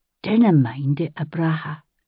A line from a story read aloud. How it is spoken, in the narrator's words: she said softly